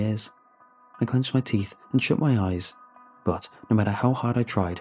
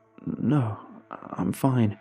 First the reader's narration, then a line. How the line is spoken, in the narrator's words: stammered out